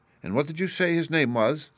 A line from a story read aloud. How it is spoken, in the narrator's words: said